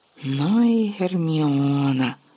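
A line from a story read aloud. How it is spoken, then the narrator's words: Whispered. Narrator (Ukrainian): прошепотів Гаррі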